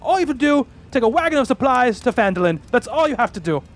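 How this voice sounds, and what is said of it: Failed attempt at Gimli-like accent. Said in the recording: “I don't know what this accent is. I'm going back and forth. ... I'm trying to do almost a Gimli accent, and it's totally failing.”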